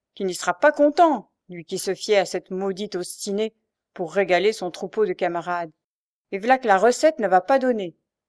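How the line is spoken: Grumbling. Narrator (French): grommela-t-elle

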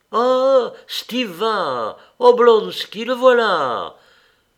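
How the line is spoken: Delighted exclamation. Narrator (French): s'écriait-on presque toujours avec un sourire de plaisir

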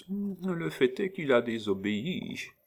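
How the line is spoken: Soft gentle murmur. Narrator (French): murmura de sa voix la plus douce

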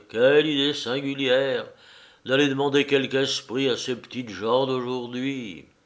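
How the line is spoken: Sighing. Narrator (French): dit enfin le directeur avec un soupir

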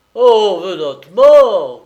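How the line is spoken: Shouted. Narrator (French): cria-t-il

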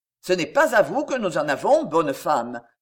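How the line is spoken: Disdainful. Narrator (French): fit-il d'une voix dédaigneuse

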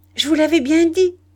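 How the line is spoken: Exclaimed. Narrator (French): s'écria

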